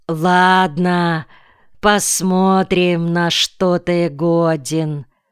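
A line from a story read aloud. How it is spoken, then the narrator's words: Slow. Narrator (Russian): Зайцев медленно произнес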